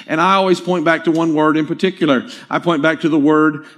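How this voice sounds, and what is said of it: Southern American accent. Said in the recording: “I'm trying not to say this with as much of a southern accent as I have”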